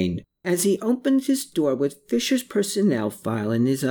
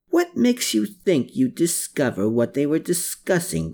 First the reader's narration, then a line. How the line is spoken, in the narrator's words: growled Klaus